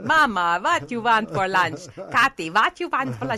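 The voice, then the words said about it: Mock thick Hungarian accent. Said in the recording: “thick Hungarian accent. And my whole life, I make fun of their accent.”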